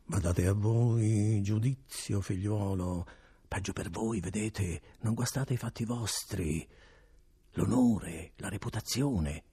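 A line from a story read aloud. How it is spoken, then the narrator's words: Notary whispering. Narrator (Italian): continuava a sussurrare il notaio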